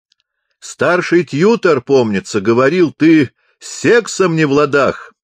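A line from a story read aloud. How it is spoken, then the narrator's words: Shout. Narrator (Russian): закричал капеллан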